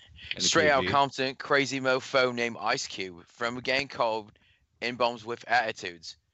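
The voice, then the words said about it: Put-on British accent, rapping. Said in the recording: “In the British accent.”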